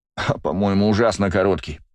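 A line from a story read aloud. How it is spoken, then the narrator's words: Moaning. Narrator (Russian): простонал Бельфигор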